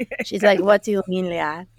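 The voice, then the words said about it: Imitated Greek accent. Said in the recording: “She's like Russian. Like, or no, not Russian, Greek... I'm sure you got that from the accent.”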